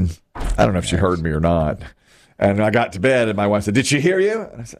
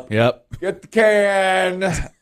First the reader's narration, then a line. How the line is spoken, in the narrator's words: I yelled up